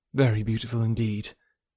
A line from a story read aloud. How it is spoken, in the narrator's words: replied Emma, and she spoke so kindly